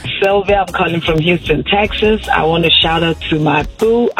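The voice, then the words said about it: Noticeable regional accent. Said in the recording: “did you hear the accent?... It was amazing.”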